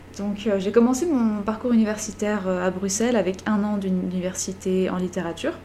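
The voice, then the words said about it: Belgian French accent. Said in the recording (French): “comme vous pourrez l'entendre à mon accent, je ne suis pas québécoise, mais je viens en réalité de Belgique”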